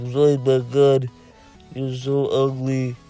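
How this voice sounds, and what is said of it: Zoidberg impression. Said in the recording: “trying to do a Zoidberg impression”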